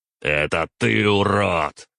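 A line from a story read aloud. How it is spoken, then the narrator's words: Growl. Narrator (Russian): прорычал я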